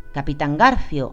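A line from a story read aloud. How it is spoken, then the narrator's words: Exclaimed. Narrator (Spanish): exclamó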